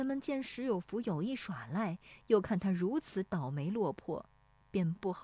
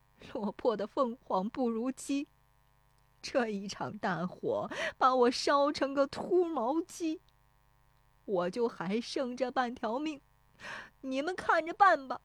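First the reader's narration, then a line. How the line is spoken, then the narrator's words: Crying, despairing. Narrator (Chinese): 石有福蹲在地上，对着烧塌的房子哭说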